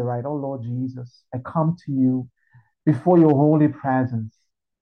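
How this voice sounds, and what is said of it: Cute, sweet praying voice. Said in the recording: “cute accent”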